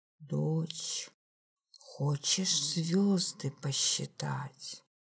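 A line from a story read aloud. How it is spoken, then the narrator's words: Father, mysterious conspiratorial voice. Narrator (Russian): папа пришел из кухни и загадочно, заговорщическим голосом сказал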